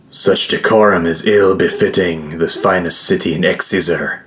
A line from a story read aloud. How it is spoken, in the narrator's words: Solomon growled